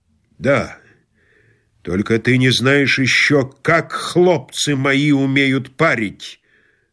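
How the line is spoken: Menacing commander. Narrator (Russian): сказал сотник, грозно

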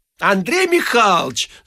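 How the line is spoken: Woman shouting offstage. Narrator (Russian): закричал женский голос из комнаты

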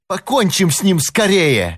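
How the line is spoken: Furious exclamation. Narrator (Russian): яростно воскликнул Чарли

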